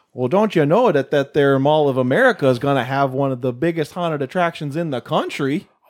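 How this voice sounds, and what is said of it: Put-on accent, sounds a little Irish. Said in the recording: “That sounded a little Irish. ... That was a little Irish, yeah.”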